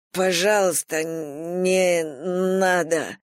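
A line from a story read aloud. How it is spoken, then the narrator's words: Hoarse rasp. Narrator (Russian): прохрипел он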